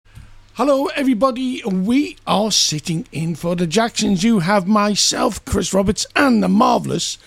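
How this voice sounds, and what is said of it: Croaky, hoarse voice. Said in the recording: “Have you got a froggy throat? ... I've got a frog in my throat.”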